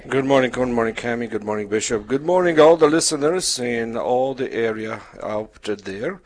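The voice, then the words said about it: Polish accent. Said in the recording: “My background is Polish, so that's the accent.”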